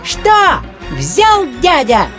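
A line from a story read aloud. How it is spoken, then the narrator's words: Mosquito squeaking. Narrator (Russian): пищал комар Комарович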